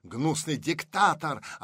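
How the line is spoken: Yelling. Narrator (Russian): орал Бакунин

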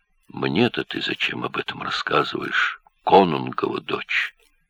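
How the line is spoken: Muffled voice. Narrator (Russian): Глухо прозвучал его голос

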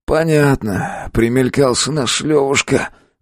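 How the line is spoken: Sighing thug. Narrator (Russian): вздохнул бандит

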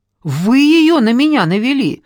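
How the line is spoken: Shouting. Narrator (Russian): закричала Ольга

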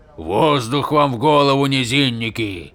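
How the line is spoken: Grumbling. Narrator (Russian): проворчал камень

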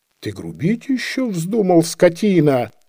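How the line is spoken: Furious shouting. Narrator (Russian): закричал с яростью

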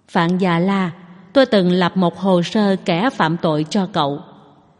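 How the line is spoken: Low, deep voice. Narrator (Vietnamese): Tống Duệ nói với giọng trầm thấp

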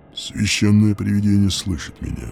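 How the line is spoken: Unexpectedly low voice. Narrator (Russian): сказал он неожиданно низким голосом

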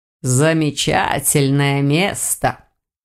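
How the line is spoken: Snorting. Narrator (Russian): хмыкнул Саргон

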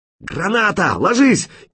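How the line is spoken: Hysterical shout. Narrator (Russian): истерично выкрикнул кто-то

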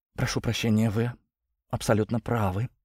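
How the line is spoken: Sudden hoarse whisper. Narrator (Russian): прошептала она внезапно охрипшим голосом

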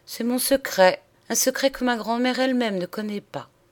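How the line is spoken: Deep sigh. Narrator (French): répondit-elle en poussant d'un profond soupir

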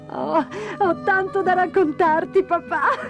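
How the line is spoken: Laughing. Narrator (Italian): rise Dora

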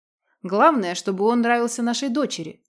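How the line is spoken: Snort. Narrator (Russian): фыркнул волк

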